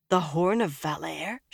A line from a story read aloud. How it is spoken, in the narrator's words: she gasped